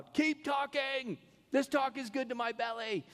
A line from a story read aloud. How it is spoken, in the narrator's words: they would just yell out